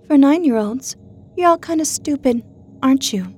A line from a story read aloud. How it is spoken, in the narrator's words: Margot sobbed